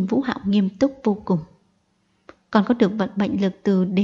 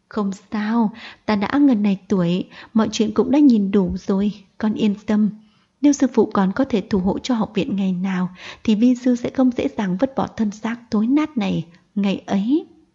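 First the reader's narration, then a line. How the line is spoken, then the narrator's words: Smiling old man. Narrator (Vietnamese): Mục lão mỉm cười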